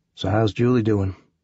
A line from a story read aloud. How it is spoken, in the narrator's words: Van Zant ask me quietly